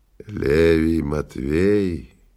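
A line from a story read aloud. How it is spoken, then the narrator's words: Hoarse sick man asking. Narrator (Russian): хриплым голосом спросил больной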